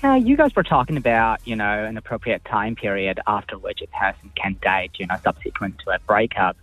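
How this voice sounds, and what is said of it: Mixed international accent. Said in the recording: “I think it was just his accent. She couldn't understand. ... I've got a mixed up accent. ... You can hear them all at times”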